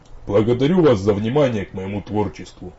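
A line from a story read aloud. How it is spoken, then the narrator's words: Deep bass voice, poet. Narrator (Russian): басистым голосом, удивительно подходящим к его внешности, произнес поэт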